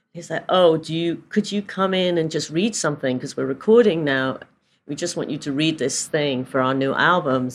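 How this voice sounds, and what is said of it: British accent. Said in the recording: “they like my British accent. Easy, really like my British accent.”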